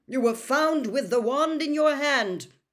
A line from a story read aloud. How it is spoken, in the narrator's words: barked Mr